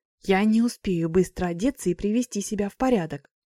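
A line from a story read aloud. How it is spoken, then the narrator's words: Hissing. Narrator (Russian): зашипела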